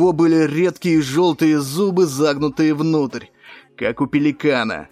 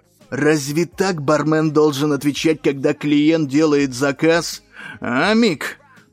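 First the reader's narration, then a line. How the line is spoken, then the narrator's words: Hissed. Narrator (Russian): прошипел он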